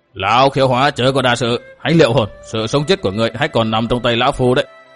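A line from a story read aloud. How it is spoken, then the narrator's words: Threatening. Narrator (Vietnamese): Lão liền với giọng đe dọa nói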